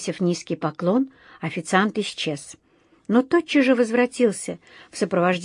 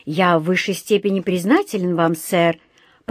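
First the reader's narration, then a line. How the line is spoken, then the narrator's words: Deep, joyful voice. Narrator (Russian): пробасил тот, радостно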